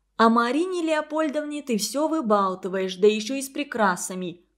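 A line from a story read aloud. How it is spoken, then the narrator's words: Shout. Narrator (Russian): крикнула Тамара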